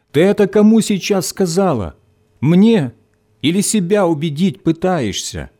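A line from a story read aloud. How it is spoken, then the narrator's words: Shouted after someone. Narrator (Russian): крикнул Виктор в спину забежавшей в подъезд девушки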